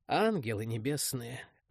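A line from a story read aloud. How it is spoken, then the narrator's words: Sorrowful exhale. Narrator (Russian): горестно выдохнул я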